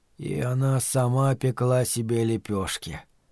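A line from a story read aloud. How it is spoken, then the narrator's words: Hoarse croak. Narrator (Russian): прохрипел Стю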